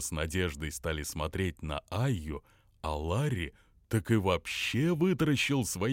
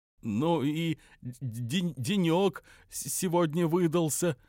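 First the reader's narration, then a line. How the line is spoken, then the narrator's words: Stammering. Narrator (Russian): только и смог, заикаясь, сказать он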